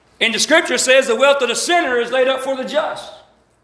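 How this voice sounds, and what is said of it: Southern US accent. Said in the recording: “I'm from the hills of Alabama. That's why I have this wonderful, beautiful accent. ... I've tried to shake it a few times”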